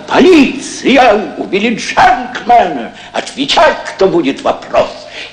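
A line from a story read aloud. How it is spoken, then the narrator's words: Shout. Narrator (Russian): закричал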